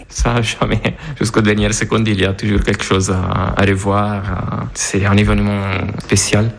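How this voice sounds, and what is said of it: Italian accent speaking French. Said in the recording (French): “vous l'entendez à son bel accent, il est italien”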